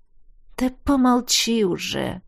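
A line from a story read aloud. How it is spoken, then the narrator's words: Suffering, pained voice. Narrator (Russian): Страдальческим голосом отозвался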